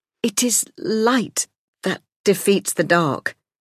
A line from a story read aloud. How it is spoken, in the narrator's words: he said, stammering